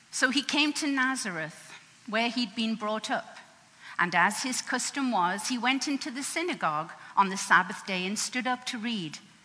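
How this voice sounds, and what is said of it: English accent. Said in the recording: “what's that accent? ... I say Luke different to what you say it, and I say Isaiah different to what you say. But I'm from England, and I guess the accent's here to stay. After 40 years.”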